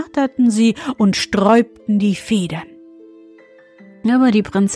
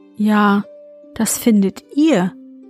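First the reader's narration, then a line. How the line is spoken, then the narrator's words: Plain. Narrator (German): sagte sie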